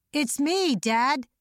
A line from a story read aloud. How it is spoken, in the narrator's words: she yelled, although the words stuck in her throat